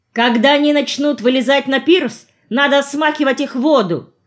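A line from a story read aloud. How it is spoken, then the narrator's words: Shouted. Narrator (Russian): крикнул я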